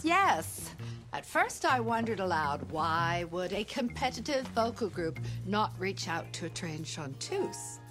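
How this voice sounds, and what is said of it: Affected Mid-Atlantic accent. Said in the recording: “the accent that she's created ... This slightly, what we used to be called Mid-Atlantic”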